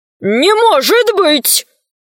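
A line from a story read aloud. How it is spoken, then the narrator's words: Many voices shouting. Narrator (Russian): закричали волшебники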